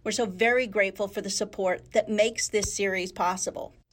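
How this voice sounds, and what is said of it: Polished radio announcer voice. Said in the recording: “Don't you like my radio voice? ... That's my radio voice.”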